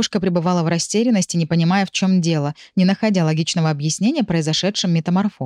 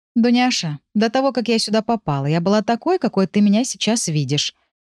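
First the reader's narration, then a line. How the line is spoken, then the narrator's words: Gentle objection. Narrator (Russian): мягко возразила я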